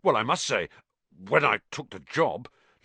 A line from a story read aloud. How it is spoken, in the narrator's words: Lockhart muttered